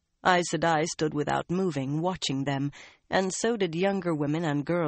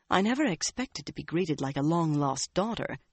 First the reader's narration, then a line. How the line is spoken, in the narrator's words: she murmured to the other woman